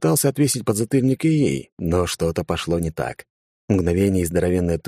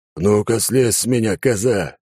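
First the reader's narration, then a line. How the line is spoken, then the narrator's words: Clown's roar. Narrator (Russian): взревел клоун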